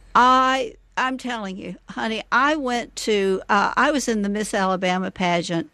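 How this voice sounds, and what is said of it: Southern American accent. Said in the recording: “someone who has a Southern accent herself”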